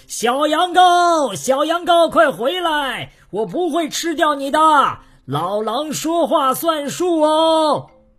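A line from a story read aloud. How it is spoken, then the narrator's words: Loud calling out. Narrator (Chinese): 老狼 大声叫起来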